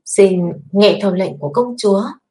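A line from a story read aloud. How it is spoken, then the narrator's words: Suppressed anger. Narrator (Vietnamese): Kiếp Chân Võ trong mắt hắn có tức giận nhưng ngoài miệng hắn vẫn nói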